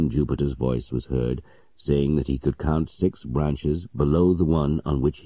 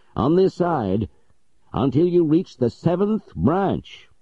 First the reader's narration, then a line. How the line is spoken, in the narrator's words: shouted